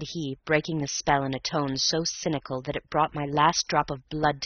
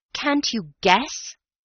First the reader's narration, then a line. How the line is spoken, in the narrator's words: cried